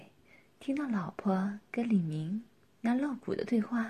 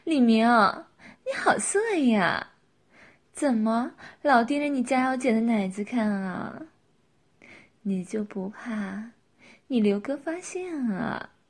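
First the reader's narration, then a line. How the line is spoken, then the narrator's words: Tipsy, laughing, teasing. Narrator (Chinese): 佳瑶喝了酒，也放得开了，笑着说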